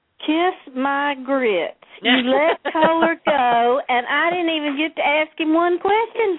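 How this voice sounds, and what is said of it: Southern US drawl. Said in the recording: “beautiful southern drawl”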